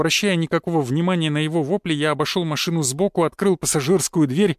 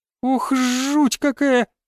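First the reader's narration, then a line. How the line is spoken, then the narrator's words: Squeaky. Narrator (Russian): пропищала она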